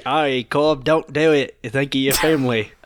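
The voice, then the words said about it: Poor imitation of another person's voice. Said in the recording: “your Michael Caine impression... You sound further away from Michael Caine than you do with your normal accent”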